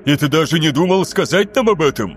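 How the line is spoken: Exclamation. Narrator (Russian): воскликнул Люций

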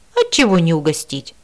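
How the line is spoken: Broad smile. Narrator (Russian): улыбнулась широко Шалависа

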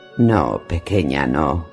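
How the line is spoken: Murmured. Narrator (Spanish): murmuró

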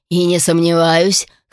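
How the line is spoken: Chuckling. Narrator (Russian): хохотнул Ральф Барн

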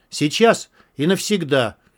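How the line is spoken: Sharp and insistent. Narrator (Russian): резко и настойчиво сказал Антон

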